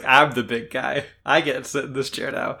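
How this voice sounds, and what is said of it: Imitates a villain character's voice. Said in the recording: “That's not his voice. That was him doing an Orochimaru voice.”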